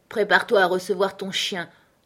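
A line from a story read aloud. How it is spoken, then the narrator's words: Peremptory command. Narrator (French): ordonna Scott d'un ton péremptoire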